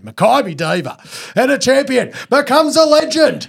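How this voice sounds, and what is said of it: Horse race caller delivery. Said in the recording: “You've got a real race calling voice”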